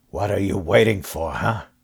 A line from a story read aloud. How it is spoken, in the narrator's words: He muttered